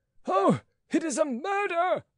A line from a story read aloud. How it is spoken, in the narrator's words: cried Rateau